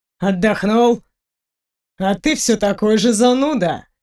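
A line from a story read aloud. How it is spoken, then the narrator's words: Smirking snort. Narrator (Russian): хмыкнул Фенрир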